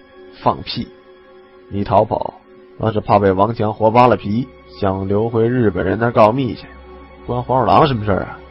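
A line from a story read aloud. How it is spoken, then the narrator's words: Shivering, forced-laugh whisper. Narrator (Chinese): 我不禁连打几个寒噤，想笑着低声道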